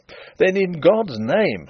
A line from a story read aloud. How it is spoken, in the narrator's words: I cried